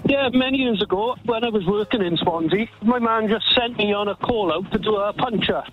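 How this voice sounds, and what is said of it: Swansea Welsh accent. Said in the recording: “I'm originally from Swansea ... It's a tiny giveaway with your accent there. Just a tiny giveaway.”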